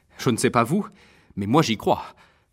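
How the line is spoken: Worried voice. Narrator (French): laissa tomber Kupperman d'une voix soucieuse

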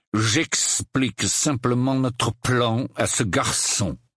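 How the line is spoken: Growled. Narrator (French): gronda Maugret

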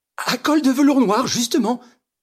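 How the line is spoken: Triumphant exclamation. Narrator (French): s'écria Madame Renaud triomphante

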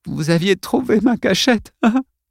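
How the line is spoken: Sobbing speech. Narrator (French): dit-elle entre deux sanglots

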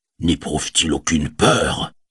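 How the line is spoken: Muttered by dwarf. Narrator (French): marmonna le nain

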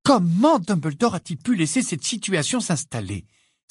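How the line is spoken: Sudden exclamation. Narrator (French): s'exclama soudain Hermione

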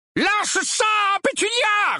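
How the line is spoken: Uncle roaring. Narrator (French): rugit l'oncle Vernon

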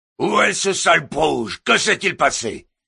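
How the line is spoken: Yell from behind. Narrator (French): hurla une voix dans son dos

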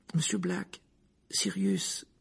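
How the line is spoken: Timid voice. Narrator (French): dit Hermione timidement

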